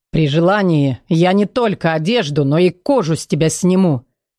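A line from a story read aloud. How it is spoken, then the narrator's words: Smirking mutter. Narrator (Russian): хмыкнул и пробормотал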